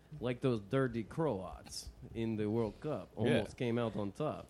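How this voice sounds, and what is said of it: Put-on Russian accent. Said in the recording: “I was doing a Russian accent”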